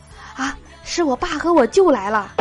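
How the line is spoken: Panting, frightened. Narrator (Chinese): 美女大喘了几下，惊恐的说

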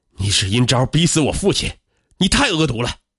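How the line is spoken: Furious roar. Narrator (Chinese): 段钱怒吼道

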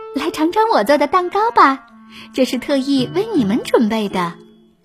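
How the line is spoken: Smiling, warm. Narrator (Chinese): 艾洛微笑着对国王和王后说

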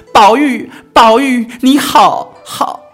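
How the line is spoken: Sudden loud cry. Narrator (Chinese): 黛玉忽然高声的叫

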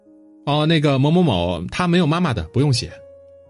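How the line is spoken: Loud. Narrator (Chinese): 数学老师就在门口大声说了句

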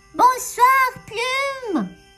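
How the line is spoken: Exclaimed. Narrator (French): s'écria Souricette

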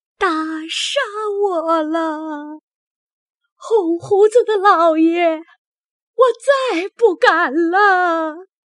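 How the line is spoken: Crying, begging for mercy. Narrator (Chinese): 说一回，哭一回，有时爬在地下叫饶，说

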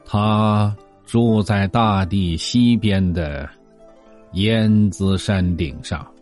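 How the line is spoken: Slow old man's voice. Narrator (Chinese): 白胡子老先生慢吞吞的说

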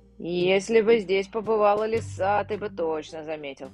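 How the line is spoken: Muttered. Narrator (Russian): пробурчал Густавсон

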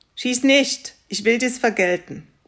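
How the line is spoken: Raven calling. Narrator (German): rief der Rabe

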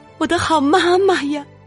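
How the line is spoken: Continuous crying out. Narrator (Chinese): 一直喊

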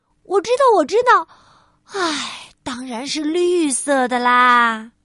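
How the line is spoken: Sighing. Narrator (Chinese): 百事通小姐叹着气回答

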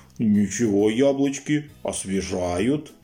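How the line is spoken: Roared. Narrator (Russian): проревел

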